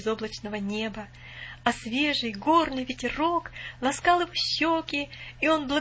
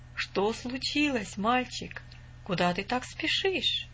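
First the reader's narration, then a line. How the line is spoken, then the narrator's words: Calm old man. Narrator (Russian): спокойно спросил дедушка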